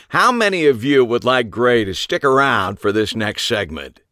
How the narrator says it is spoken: boomed to the audience

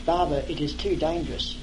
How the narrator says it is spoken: I said softly to Barber

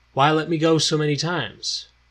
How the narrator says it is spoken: Gordon genuinely asked, his tone remaining even and calm

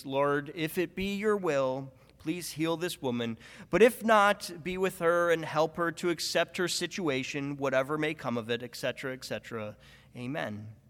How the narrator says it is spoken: he sighs, then prays

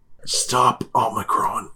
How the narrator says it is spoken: he whispers

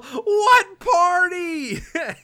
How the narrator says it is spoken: yell

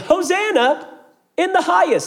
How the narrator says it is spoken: were yelling

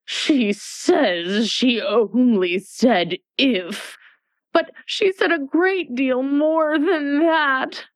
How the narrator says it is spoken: the White Queen moaned

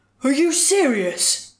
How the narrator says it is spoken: Baraldus gasped between words, hot, heavy breath

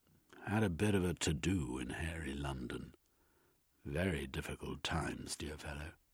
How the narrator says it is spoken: In a low, wavering voice, he replied

